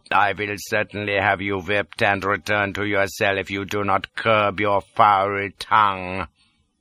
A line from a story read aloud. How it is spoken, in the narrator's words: says he coldly